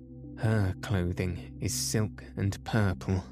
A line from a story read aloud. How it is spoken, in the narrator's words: I murmured, quoting the Bible verse